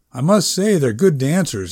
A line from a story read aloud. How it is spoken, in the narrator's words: Allison said